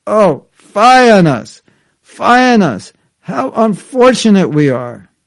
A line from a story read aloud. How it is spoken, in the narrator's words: falling into the abyss of despair, they cried